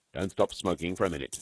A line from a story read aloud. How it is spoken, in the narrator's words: said the head